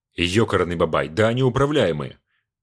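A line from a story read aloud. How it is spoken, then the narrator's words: Exclamation. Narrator (Russian): воскликнул Бачинский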